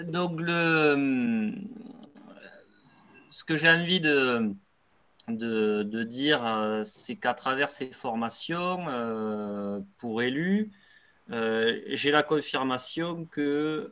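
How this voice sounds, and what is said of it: Sing-song regional French accent. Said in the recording (French): “l'accent chantant de ... dont je suis fan”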